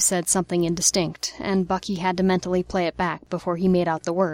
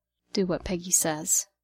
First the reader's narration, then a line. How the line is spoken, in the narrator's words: Steve murmured to the steering wheel